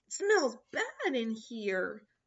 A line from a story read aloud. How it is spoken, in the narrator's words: sputtered Gift